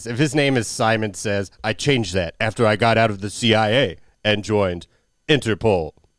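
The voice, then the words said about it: Imitates another person's voice. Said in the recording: “my Dennis Rodman acting impression ... The cadence was pretty much spot on.”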